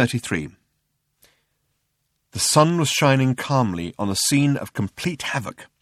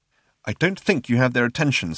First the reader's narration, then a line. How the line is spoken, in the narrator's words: said Ford